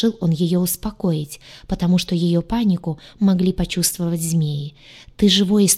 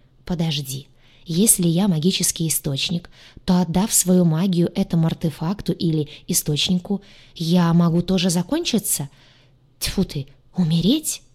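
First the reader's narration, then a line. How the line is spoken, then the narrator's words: Frightened whisper. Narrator (Russian): Перепуганно прошептала она, осознавая весь масштаб опасности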